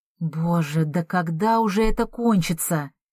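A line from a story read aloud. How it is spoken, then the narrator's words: Moaning. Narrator (Russian): простонала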